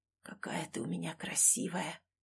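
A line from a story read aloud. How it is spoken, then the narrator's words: Whisper. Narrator (Russian): прошептал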